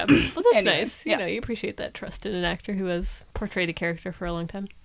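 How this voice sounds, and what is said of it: Usual voice. Nothing is said of it.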